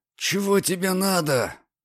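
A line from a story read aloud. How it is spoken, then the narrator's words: Through clenched teeth. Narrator (Russian): процедил сквозь стиснутые зубы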